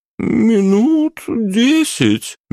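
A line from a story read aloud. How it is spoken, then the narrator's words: Uncertain reply. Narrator (Russian): неуверенно отозвалась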